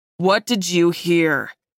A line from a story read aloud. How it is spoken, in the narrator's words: He growled